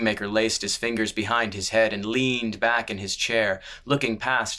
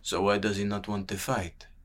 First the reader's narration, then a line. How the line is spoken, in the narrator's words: murmured the sellsword